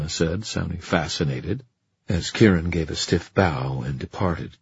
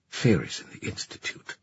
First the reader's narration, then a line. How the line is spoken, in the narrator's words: she muttered